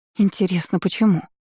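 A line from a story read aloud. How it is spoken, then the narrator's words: Terrified whisper. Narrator (Russian): в ужасе прошептала ему вслед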